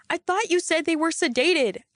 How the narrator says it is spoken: yelled

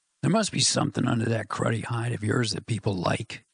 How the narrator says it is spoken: muttered

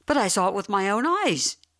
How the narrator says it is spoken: he cried

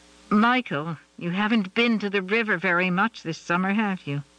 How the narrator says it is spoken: Carol tried to keep her voice neutral and failed

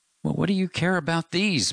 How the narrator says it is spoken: Matt cried

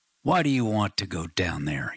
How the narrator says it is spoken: snarled

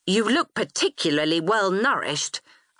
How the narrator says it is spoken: I said coldly

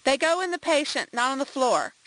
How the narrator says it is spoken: she snapped

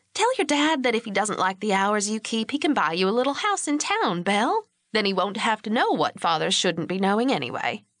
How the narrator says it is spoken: In a light, teasing tone, she said

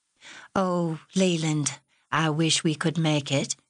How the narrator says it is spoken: Margaret answered, her voice full of regret

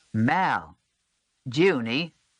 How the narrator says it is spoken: pausing to call out again

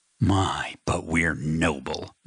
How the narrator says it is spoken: Matt snapped

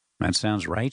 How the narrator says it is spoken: said

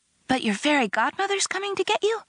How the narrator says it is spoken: She asked eagerly

